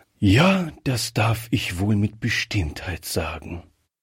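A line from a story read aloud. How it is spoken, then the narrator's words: Colonel replying with deep sigh. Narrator (German): erwiderte der Oberst mit einem tiefen Seufzer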